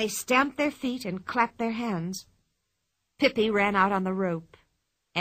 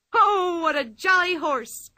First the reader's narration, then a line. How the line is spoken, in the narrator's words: cried Pippi